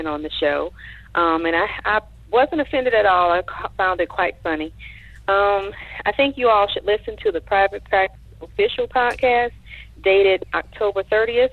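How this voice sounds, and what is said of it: Louisiana Southern accent. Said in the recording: “I am a transplant from Louisiana, so I'm sure I have quite a bit of an accent to you all”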